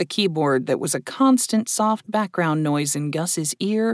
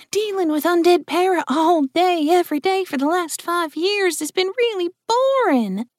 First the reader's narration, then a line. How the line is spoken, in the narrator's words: Jill exclaimed